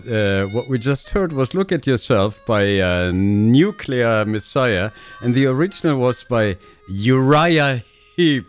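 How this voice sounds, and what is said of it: German accent. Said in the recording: “my German accent”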